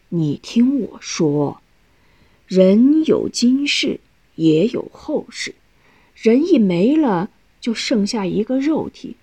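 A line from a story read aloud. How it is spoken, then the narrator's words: Slow explanation. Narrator (Chinese): 老何慢慢解释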